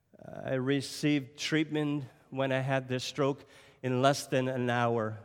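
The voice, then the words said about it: French-sounding accent. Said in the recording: “sound French today, I'm not French ... I'm from Cape Breton Island. We have our own accent ... what part of Quebec are you from? ... this different voice”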